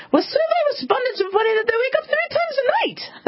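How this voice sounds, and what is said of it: Put-on Irish accent. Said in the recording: “that's my Irish accent”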